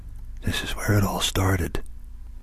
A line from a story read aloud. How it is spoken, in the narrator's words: she breathed